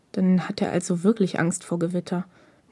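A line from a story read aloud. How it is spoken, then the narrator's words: Murmur to self. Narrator (German): murmelte Takeda mehr zu sich selbst denn an Hinata gewandt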